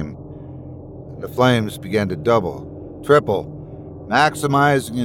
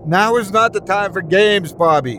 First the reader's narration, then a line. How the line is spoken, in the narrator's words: she screamed